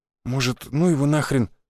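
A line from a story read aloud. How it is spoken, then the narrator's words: Muttered. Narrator (Russian): пробормотал он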